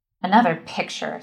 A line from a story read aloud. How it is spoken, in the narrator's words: Sarah Ruth growled